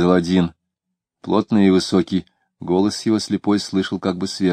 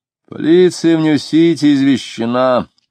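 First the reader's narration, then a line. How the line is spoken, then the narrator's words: Very loud speech. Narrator (Russian): длинный полицейский говорил очень громко, потому что не хотел, чтобы его переспрашивали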